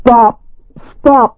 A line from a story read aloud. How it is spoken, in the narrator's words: cried